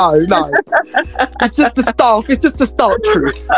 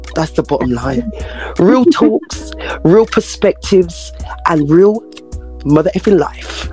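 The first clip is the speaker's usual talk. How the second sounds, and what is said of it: Smooth, rich radio-announcer voice. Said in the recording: “That's like your best radio voice. ... like chocolate? ... Yes, yeah, smooth, baby. ... Smooth like galaxy”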